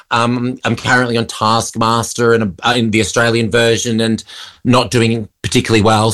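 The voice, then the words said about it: Australian accent. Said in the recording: “in Australia, obviously your home country, because we can hear that from the accent.”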